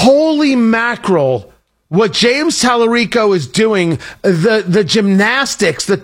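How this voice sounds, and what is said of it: Usual voice. Nothing is said of it.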